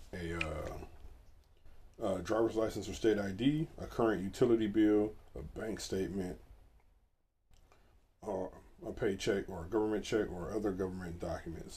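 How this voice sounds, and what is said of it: Raspy, hoarse voice. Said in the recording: “Don't know why my voice is so raspy this morning.”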